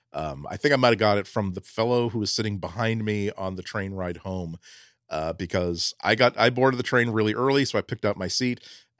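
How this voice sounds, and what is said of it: Voice sounds like a cold. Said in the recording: “you listeners probably can tell by my voice, I did pick up a little bit of a cold”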